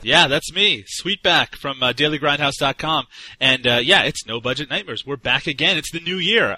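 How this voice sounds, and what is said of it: Energetic, lively speaking voice. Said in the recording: “as you can probably hear in my energetic voice”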